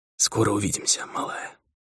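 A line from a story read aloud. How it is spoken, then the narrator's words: Muttered. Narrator (Russian): пробормотал он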